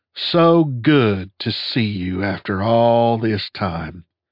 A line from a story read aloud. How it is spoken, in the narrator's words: said Sunday in a faux southern drawl